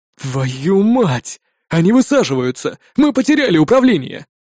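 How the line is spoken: Breathless gasp. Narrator (Russian): выдохнул Пылаев

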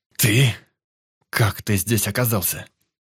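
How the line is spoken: Strained, forced words. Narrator (Russian): Все, что я смог выдавить из себя в первые секунды

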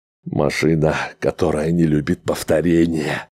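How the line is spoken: Heavy sigh. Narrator (Russian): тяжело вздохнул Грегор

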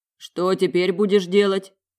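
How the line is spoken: Deep bass voice. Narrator (Russian): пробасил Олан

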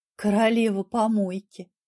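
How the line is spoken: Gloomy reply. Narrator (Russian): мрачно ответила

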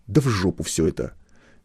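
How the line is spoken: Angry sudden blurt. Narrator (Russian): Неожиданно для самого себя зло выпалил Шилов

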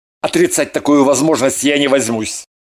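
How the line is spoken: Angry reply. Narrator (Russian): сердито ответил Кириллов

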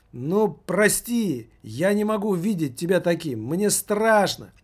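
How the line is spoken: Whining. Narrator (Russian): заскулил маркетинг

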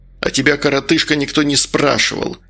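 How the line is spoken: Angry retort. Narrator (Russian): зло отозвался Медовар

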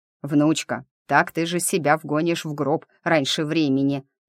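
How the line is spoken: Grumbling. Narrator (Russian): ворчал он

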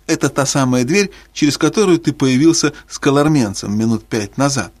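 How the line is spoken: Laughing. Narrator (Russian): сказал Питер, смеясь

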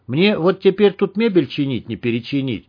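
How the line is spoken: Sad. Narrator (Russian): печально сказал он

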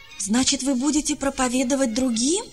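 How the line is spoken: Joyful exclamation. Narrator (Russian): радостно воскликнул

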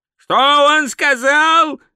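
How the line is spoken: Yelled. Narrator (Russian): заорал Ринсвинд

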